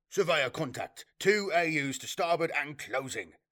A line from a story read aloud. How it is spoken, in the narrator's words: declared a surveyor officer almost triumphantly